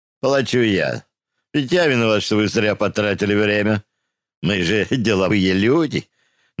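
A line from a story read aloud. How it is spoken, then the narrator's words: Mocking. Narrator (Russian): насмешливо сказал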